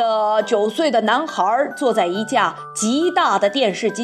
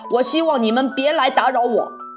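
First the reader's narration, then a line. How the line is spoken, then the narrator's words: Angry. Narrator (Chinese): 他愤怒地说道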